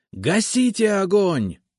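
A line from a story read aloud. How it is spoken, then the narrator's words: Shouting. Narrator (Russian): снова закричал я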